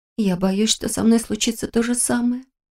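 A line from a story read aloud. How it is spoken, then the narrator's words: Quiet confession. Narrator (Russian): тихо призналась она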